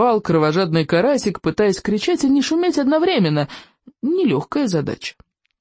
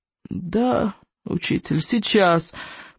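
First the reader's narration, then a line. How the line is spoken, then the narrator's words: Groaning. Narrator (Russian): простонал Икинг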